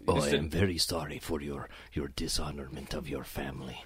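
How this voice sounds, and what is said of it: Stereotypical ninja movie character voice. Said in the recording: “talk like a ninja ... stereotypical”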